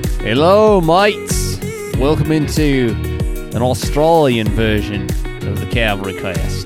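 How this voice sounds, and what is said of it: Put-on Australian accent. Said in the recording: “I don't have an Australian accent that I can do, so. But that was good. Yours was good.”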